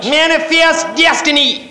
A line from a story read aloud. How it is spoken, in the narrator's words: cried the captain of the ship